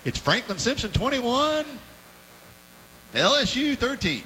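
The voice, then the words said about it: Imitates another person's voice. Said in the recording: “Is that your Kay Wood Leopard impersonation? ... pretty good”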